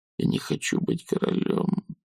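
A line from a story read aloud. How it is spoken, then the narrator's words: Hoarse whisper. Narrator (Russian): хрипло прошептал Том Джон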